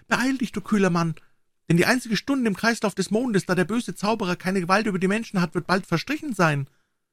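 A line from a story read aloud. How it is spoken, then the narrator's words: Trembling plea. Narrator (German): flehte zitternd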